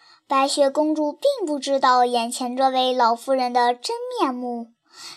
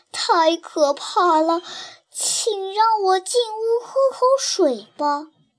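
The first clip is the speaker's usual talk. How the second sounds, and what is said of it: Trembling old woman's voice. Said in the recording (Chinese): “故意用颤巍巍的声音说道”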